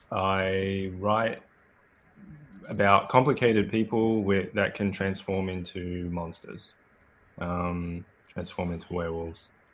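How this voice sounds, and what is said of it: Australian accent. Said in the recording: “I'm Australian, as you might be able to guess from my accent.”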